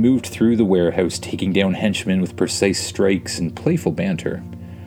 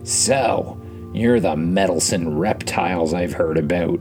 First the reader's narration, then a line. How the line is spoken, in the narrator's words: sneered